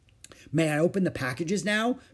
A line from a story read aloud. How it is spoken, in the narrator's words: Beezus asked eagerly